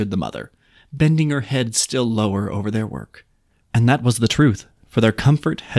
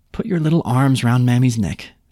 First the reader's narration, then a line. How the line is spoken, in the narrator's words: she said